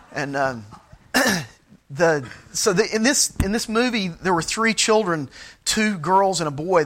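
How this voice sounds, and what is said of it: Michigan-sounding American accent. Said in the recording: “My accent probably makes you think I was raised in Michigan”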